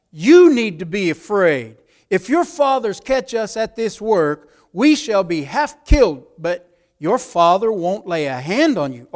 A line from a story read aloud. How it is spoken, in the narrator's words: One of them cried out